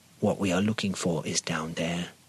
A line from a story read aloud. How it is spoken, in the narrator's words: he said